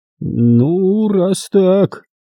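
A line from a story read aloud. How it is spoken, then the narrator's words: Drawl. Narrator (Russian): протянул Уинтерс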